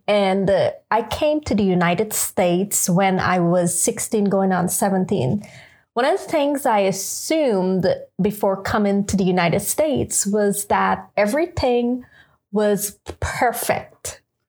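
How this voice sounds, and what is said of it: Guyanese accent. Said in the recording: “where the accent come from. So I'm from Guyana, South America”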